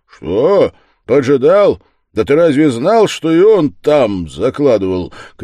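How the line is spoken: Shouted. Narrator (Russian): крикнул Разумихин

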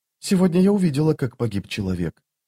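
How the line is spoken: Quiet. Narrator (Russian): тихо проговорила Ваза

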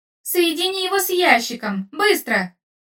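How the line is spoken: Shouted. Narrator (Russian): закричал Иити

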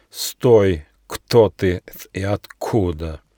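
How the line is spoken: Menacing snake hiss. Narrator (Russian): большая змея грозно прошипела

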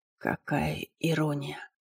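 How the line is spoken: Hoarse joking whisper. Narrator (Russian): Хрипло прошептал он, попытавшись пошутить

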